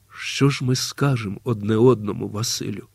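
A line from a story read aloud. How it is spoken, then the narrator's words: Quiet. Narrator (Ukrainian): тихо промовила Олеся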